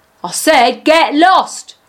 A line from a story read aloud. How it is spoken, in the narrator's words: He shouted